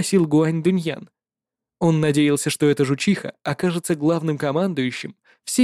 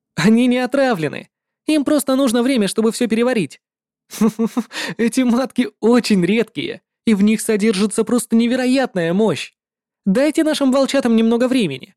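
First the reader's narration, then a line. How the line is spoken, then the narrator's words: Laughing. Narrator (Russian): рассмеялся Ван Дун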